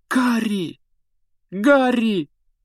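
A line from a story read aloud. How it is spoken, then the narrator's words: Exclamation. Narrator (Russian): воскликнула Гермиона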